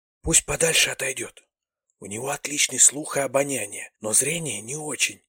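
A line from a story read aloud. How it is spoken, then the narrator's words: Whisper. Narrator (Russian): прошептала Таха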